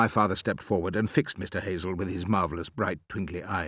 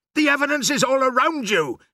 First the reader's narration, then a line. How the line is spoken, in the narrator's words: shouted